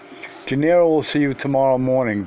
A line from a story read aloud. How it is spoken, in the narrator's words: Don Juan said